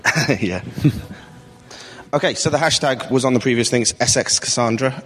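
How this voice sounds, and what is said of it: British accent. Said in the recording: “As you can tell by my accent, I'm British”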